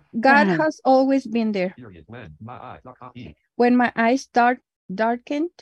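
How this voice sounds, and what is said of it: Non-native English accent. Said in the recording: “As many of you have noticed, my accent, English, is not my primary language”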